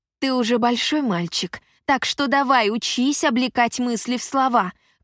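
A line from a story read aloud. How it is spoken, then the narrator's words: Shouted. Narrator (Russian): крикнула я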